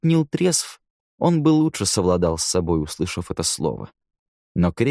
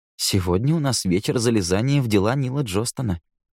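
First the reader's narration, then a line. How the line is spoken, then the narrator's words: Calm reply. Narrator (Russian): спокойно отозвался Эндрю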